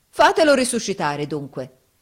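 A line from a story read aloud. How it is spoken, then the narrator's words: Defiant shout. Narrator (Italian): urlò Giovanni in tuono di sfida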